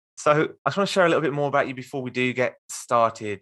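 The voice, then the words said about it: Strong English Midlands accent. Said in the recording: “I've got a very strong Midlands accent”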